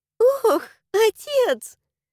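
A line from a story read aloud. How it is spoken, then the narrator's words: Laughing. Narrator (Russian): Чела засмеялась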